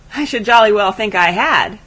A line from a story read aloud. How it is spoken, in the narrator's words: said Bannister with a laugh